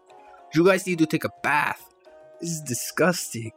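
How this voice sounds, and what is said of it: Put-on accent, done well. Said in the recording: “That accent's really good.”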